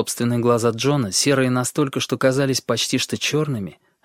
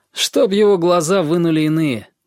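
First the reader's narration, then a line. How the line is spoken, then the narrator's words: Grumble. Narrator (Russian): буркнул он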